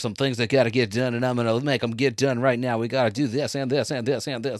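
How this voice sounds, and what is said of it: Mock white manager voice. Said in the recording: “White guy manager voice? ... like skating rink DJ ... black guy doing an impression of a white manager”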